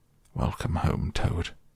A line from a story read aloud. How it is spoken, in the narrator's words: He came solemnly up to Toad, shook him by the paw, and said